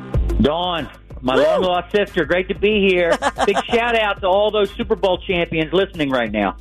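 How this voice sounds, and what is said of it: Philadelphia accent. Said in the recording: “AJ's accent comes back when he comes back on Philadelphia radio”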